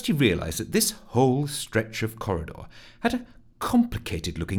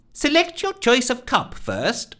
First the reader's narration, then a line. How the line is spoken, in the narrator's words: called out Nancy